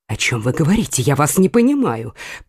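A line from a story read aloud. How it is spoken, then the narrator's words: Astonished mutter. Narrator (Russian): пробормотала Екатерина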